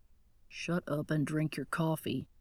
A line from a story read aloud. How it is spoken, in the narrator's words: Grant muttered